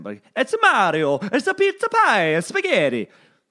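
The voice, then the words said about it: Cartoonish Mario-style Italian accent. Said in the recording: “the only feel like the time I can kind of do an Italian accent is if I say Mario. I got to do Mario and Luigi ... a horribly offensive, like just cartoonish Italian accent.”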